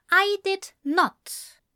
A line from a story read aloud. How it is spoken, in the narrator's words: Ezra replied firmly